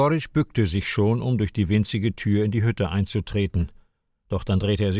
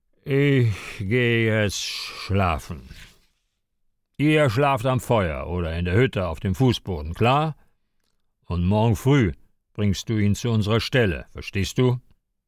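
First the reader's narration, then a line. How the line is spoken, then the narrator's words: Drunken slurring. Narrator (German): Jegorytsch, der die erste Flasche Wodka geleert hatte, lallte zu seinem Partner Saschka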